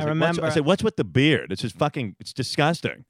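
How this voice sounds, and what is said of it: Howard Stern impression. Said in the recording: “do a Howard impression”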